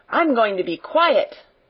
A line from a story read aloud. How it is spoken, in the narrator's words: Donald shouted